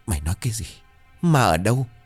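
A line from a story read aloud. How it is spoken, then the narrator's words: Stammering. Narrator (Vietnamese): Bà Liễu lắp bắp thuật lại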